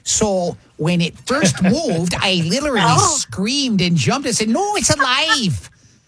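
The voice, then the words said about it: Put-on Wisconsin accent. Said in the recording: “let me just read her quotes again, but in the accent of where she lives ... She's from Wisconsin.”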